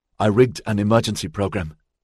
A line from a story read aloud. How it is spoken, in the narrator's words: Xavier said